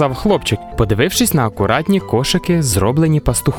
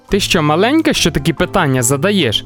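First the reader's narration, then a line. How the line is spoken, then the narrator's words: Laughing. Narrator (Ukrainian): засміявся Мілош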